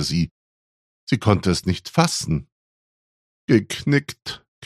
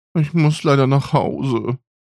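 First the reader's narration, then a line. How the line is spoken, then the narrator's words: Said sadly. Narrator (German): sagte sie traurig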